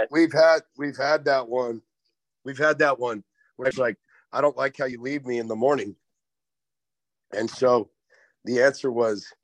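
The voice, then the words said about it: Tired-sounding voice. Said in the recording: “we just acknowledge how tired ... is... I can hear that in your voice, dude. Holy smokes.”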